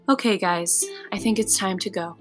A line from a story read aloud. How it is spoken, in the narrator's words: I could hear the kid's mom saying softly behind us